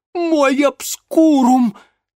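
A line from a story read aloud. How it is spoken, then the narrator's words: Frightened gasp. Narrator (Russian): испуганно охнул Ипполит Германович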